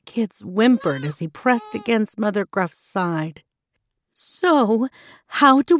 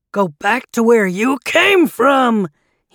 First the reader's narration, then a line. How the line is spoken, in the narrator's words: he shouted